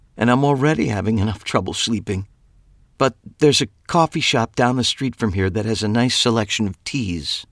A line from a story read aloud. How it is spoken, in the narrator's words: said with a sigh